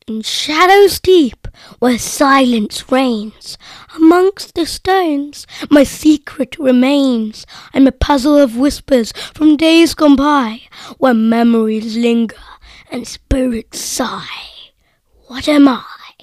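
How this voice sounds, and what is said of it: Eerie, spooky voice. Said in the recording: “in an eerie voice”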